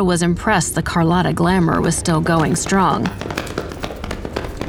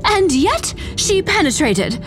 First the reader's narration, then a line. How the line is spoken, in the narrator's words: JJ cried